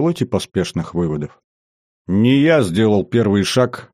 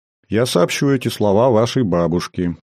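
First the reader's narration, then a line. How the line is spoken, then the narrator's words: Neutral reply. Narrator (Russian): нейтральным тоном ответила Викония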